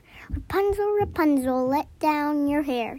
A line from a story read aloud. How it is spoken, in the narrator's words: he called softly